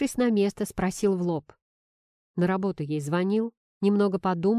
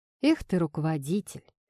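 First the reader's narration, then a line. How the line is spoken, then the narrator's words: Snorted. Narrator (Russian): фыркнул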